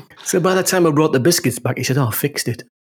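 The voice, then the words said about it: Northern English accent. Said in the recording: “he couldn't understand what I was talking about because of my northern accent”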